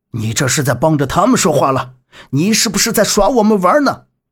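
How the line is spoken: Gruff, growing angrier. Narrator (Chinese): 这个中年人语气粗重，越说越气愤

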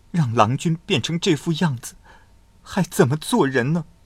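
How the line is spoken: Soft sobbing. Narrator (Chinese): 嘤嘤的哭泣

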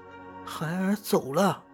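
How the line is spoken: Crying. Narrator (Chinese): 赵女哭着说

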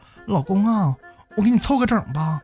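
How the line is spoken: Very tender. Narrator (Chinese): 他媳妇儿非常温柔的对他说

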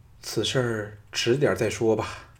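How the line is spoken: Sighing. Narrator (Chinese): 李嫣嫣叹了一口气说

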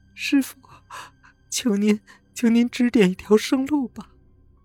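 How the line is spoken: Bursting into tears, pleading. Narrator (Chinese): 黄老汉的妻子哇啦一声哭了起来，她说

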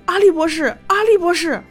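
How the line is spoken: Shouting. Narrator (Chinese): 柯南便大喊着

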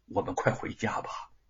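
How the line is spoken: Warm tender voice. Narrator (Chinese): 玉凤心中一片暖洋洋之意，如初春水波，温柔无限的说

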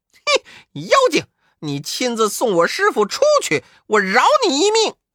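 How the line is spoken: Shouting. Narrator (Chinese): 悟空叫道

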